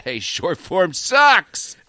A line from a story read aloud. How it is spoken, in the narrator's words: I just yelled